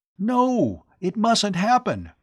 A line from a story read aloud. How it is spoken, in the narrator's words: Tom cried in dismay